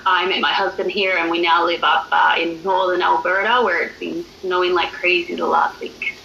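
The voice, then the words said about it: Australian accent. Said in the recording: “accent. I'm from Australia, so that's why I sound a little bit different.”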